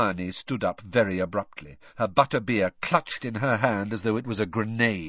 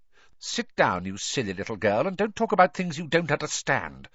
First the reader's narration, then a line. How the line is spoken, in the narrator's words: said Rita Skeeter coldly